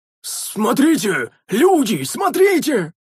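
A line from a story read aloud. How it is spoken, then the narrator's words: Strained hoarse cry. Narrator (Russian): С надрывом прохрипел седобородый воин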